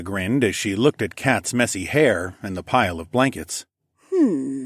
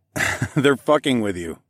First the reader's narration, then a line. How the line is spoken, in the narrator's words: chuckled